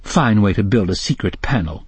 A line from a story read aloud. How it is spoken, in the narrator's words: she grumbled